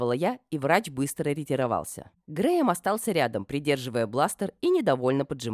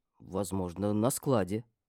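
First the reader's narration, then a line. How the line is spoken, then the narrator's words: Uncertain man's reply. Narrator (Russian): неуверенно ответил мужчина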